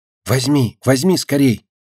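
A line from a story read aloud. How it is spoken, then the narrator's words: Loud whisper. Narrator (Russian): Громко зашептала она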